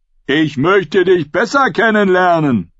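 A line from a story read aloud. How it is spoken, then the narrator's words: Calling out. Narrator (German): rief jemand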